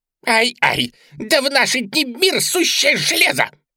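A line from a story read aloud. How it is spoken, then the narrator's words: Jackal's squeal. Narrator (Russian): провизжал шакал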